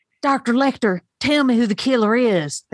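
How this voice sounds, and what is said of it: Imitates another person's voice, southern flair. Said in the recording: “I've developed an impersonation. Because I'm from Alabama, it has a good southern flair.”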